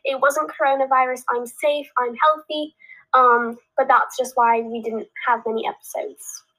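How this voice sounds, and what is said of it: Nasal congested voice. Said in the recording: “My voice is still a little bit nasally”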